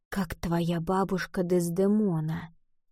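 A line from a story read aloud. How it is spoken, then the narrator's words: Whisper. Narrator (Russian): он прошептал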